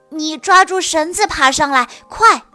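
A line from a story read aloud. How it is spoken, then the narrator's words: Loud shout. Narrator (Chinese): 舒克大声喊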